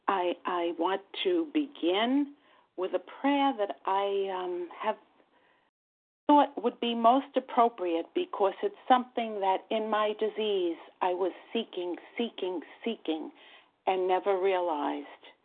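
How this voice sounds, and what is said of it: New York accent. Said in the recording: “my New York accent gives that away very readily.”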